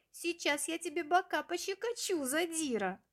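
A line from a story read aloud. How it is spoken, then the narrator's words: Laughing reply. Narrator (Russian): смеясь, ответил другой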